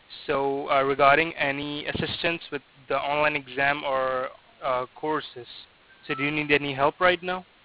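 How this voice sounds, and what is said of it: Thick accent. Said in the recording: “Your accent is very thick”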